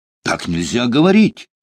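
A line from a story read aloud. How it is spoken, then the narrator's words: Indignant remark. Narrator (Russian): возмущенно заметил лейтенант Римский-Корсаков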